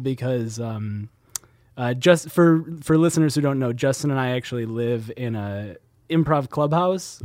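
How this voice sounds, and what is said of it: Voice changed by a cold. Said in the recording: “in case you can't recognize my voice. I've got a little bit of a cold”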